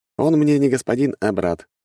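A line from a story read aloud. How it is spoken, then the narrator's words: Snorted. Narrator (Russian): хмыкнул я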